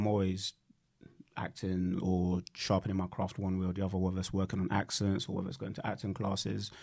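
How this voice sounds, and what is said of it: Usual voice. Nothing is said of it.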